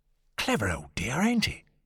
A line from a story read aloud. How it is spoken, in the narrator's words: Lord John whispered delightedly